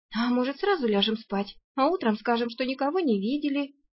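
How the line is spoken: Timid. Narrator (Russian): робко предложила Арсана

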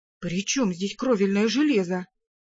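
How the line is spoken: Frightened question. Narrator (Russian): испуганно переспросил он

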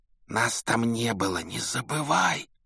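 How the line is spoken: Hiss. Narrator (Russian): прошипел Гарри

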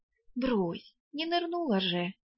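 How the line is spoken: Uncertain, dismissive. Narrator (Russian): неуверенно отмахнулась

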